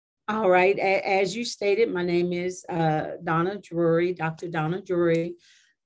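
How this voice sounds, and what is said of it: Slightly off voice from flu. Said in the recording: “My voice is a little funny. I'm recovering from the old-fashioned flu”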